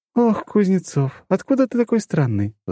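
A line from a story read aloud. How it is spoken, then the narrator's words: Sighed. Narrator (Russian): вздохнула она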